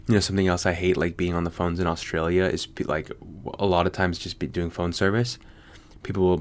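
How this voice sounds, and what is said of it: American accent. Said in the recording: “An American accent can't exist in Australia? ... I didn't say I was Australian.”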